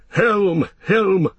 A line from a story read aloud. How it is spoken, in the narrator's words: the rider shouted